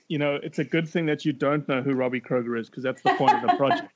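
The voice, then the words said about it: South African accent. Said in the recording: “I have an accent. It's from South Africa.”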